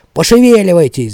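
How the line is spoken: Shouted. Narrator (Russian): закричал я

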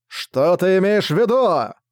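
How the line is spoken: Darkness shrieking. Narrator (Russian): завопила тьма

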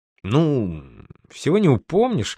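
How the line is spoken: Feigned pensive mutter. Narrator (Russian): изобразив задумчивость, буркнул наш герой

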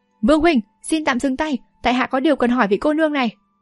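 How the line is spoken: Hurried shout. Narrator (Vietnamese): vội quát

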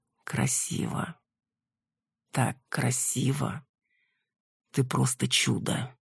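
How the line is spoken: Quiet. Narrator (Russian): он тихо произносит

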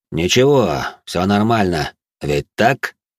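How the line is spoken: Cold male voice. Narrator (Russian): произнес холодным тоном мужчина

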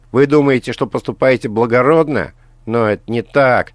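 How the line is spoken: Shouting. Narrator (Russian): прокричала Алиса

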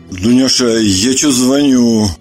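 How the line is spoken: Muffled embarrassed mumble. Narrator (Russian): Глухо пробубнил он, явно смущаясь

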